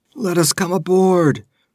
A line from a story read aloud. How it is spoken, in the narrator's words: croaked a hairy rogue